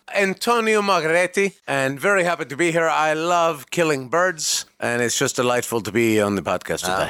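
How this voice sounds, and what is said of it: Speaks with a put-on accent. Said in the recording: “We have a guy that has an accent. ... Good luck keeping that up.”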